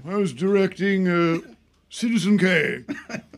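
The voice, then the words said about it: Imitates another person's voice. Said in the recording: “I love doing a bad Orson Welles impression ... he doesn't have a British accent.”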